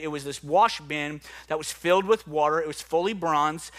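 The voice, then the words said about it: New Orleans accent. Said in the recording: “my New Orleans accent doesn't say that word correctly”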